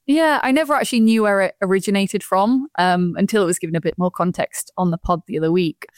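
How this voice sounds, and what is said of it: Yorkshire accent. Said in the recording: “The Yorkshire accent doesn't quite scream royalty, does it? ... I have actually got quite a lot of stick in my 2 years at Boat for the Yorkshire accent.”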